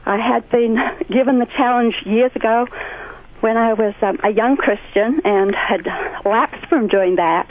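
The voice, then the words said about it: Australian accent. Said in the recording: “Sheila from Down Under ... I love that accent.”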